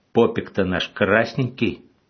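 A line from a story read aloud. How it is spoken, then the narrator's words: Plain. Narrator (Russian): сказал Житловский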